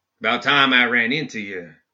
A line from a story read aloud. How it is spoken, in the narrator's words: he said in a prairie drawl